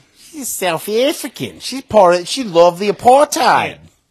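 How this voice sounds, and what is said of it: Attempted South African accent, sounds Chinese. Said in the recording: “That's a Chinese accent. ... Yeah, I guess that was Chinese.”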